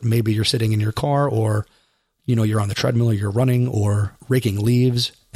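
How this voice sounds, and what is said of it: Strained, worn-out voice. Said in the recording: “the way my voice sounds ... my voice gave out this week”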